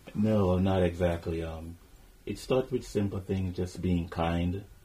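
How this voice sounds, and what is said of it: Caribbean accent. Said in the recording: “your Caribbean accent”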